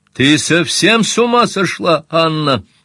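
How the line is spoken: Shouted. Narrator (Russian): закричал

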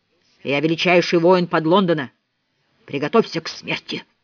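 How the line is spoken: Scary troll voice. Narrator (Russian): сказал он страшным тролльским голосом

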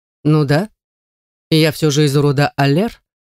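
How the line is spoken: Calm reply. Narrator (Russian): спокойно отвечает он

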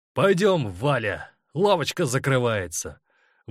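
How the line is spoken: Defiantly loud. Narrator (Russian): Вызывающе громко, так, чтобы слышали все, проговорил он

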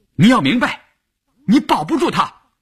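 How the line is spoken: Loud. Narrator (Chinese): 白淑芬大声地说

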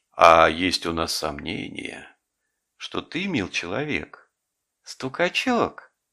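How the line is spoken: Gentle, affectionate. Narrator (Russian): ласково сказал горбун

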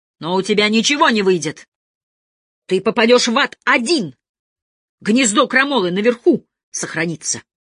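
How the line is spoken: Sudden shout. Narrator (Russian): отец закричал вдруг

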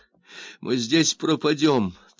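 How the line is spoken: Tragic moan. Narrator (Russian): трагически постонала Гейл

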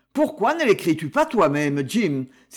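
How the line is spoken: Exclaimed. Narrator (French): s'écria Seamus

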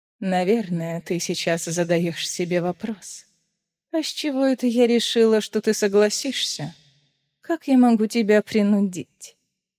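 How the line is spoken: Muffled laugh. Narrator (Russian): Маева глухо рассмеялась

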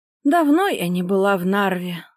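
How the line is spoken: Sighing. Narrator (Russian): вздохнула Татьяна Ивановна

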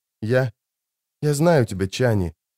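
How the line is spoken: Whisper. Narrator (Russian): прошептал он

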